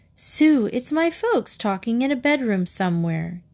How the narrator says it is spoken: Katie cried

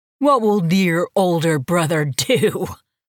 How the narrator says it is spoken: Cyrus laughed, a mirthless sound that grated on Lily's nerves

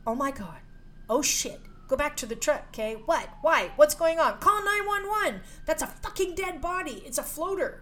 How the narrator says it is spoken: he shouted

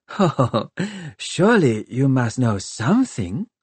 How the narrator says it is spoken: she laughed

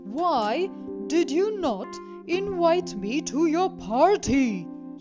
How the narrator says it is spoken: he thundered

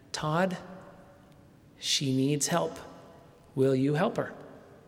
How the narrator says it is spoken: Voices from the other room softly began

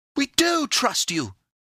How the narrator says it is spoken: cried Epimetheus and Pandora, both in one breath

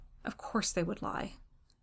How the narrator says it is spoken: One old skipper tickled my ear with his white beard to murmur

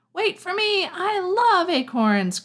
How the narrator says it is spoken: cried Kel

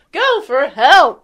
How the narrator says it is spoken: You yell at Tailspin

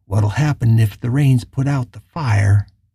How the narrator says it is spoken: asked

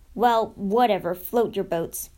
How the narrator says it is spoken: she grunted

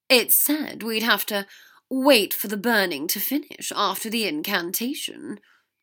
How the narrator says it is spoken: Draco said dryly

